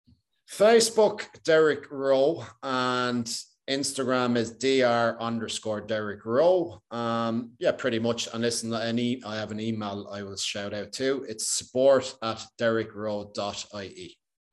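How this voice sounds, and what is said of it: Strong Irish accent. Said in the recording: “this guy with the Irish accent ... it is Irish, right? ... It's a pretty strong Irish accent.”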